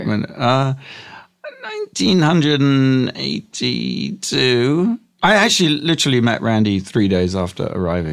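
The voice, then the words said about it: English accent. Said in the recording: “I grew up in England... That guy has a bit of an accent.”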